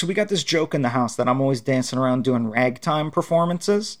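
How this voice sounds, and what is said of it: Usual voice. Nothing is said of it.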